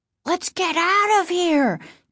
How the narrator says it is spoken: Casey cried ... in fear

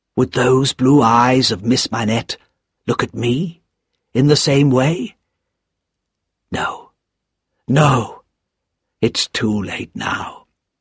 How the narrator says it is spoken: he whispered to himself

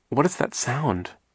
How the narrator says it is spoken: Violet asked nervously

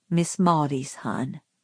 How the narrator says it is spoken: said Atticus gently

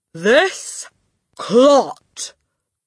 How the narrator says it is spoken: boomed the headmistress

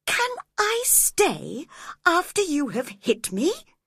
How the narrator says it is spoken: he replied

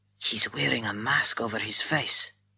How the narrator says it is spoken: he whispered

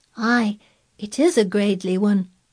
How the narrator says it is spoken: said Mary, and she sighed for mere joy

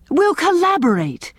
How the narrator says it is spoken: cried Owen delightedly

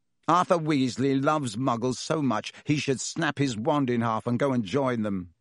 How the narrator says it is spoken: said Malfoy scornfully

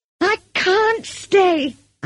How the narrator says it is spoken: I cried furiously

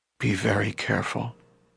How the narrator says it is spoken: Leader murmured

